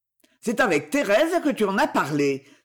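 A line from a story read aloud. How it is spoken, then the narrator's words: Spiteful, unrestrained exclamation. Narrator (French): s'écria Félix Prenelle, à qui le dépit fit oublier toute réserve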